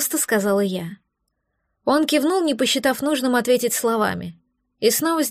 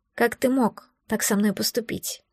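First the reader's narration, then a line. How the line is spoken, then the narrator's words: Quiet, emotional question. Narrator (Russian): Не сдержавшись, тихо спросила я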